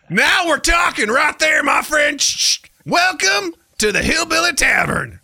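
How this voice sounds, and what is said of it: Put-on Southern accent. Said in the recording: “He is a master of accents ... Throw an accent ... Southern.”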